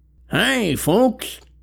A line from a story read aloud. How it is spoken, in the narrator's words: slurred, stumbling